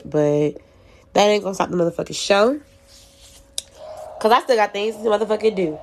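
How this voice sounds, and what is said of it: Stuffy, nasal congested voice. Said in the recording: “I sound a little stuffy or nasally, it's because I am”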